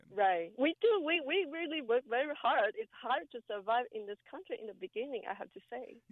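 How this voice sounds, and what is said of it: Asian-accented English. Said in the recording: “you have an accent ... you're from Asia somewhere ... you do speak good English, but you do have an accent”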